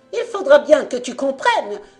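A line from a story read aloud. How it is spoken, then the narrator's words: Shouting. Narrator (French): hurlait-elle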